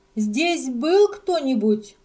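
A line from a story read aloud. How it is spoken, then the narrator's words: Loud shrill female question. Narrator (Russian): громко спросил пронзительный женский голос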